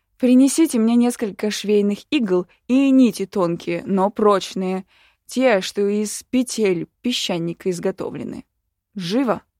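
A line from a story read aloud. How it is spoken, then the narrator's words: Sharp shout. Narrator (Russian): Пришлось прикрикнуть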